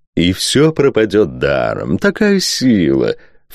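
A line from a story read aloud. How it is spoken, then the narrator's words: Ingratiating question. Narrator (Russian): вкрадчиво поинтересовался маркиз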